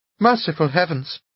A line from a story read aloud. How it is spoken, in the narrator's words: cried Anna Andreevna